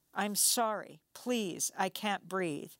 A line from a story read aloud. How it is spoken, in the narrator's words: Screaming in pain, Jordell shouted